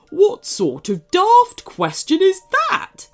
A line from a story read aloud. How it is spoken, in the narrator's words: snapped back the cupcake